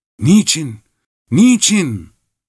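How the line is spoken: Crying out. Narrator (Turkish): diye haykırdı

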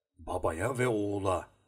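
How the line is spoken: Murmuring. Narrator (Turkish): diye mırıldandı

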